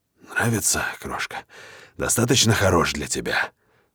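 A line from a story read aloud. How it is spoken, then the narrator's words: Hoarse lustful question. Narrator (Russian): спрашиваю я, охрипшим от похоти голосом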